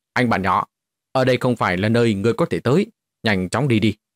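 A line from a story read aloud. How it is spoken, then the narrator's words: Cold shout in English. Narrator (Vietnamese): dùng tiếng Anh quát lạnh nói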